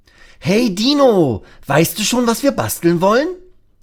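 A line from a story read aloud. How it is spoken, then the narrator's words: Called out. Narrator (German): ruft Lasse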